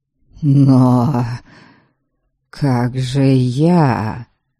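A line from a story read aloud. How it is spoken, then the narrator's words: Melancholy drawl. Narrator (Russian): тоскливо протянул отец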